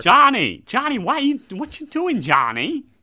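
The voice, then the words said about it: Imitates another person's voice. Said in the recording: “Is that a good Bobby Mayer? ... You definitely got his tone right.”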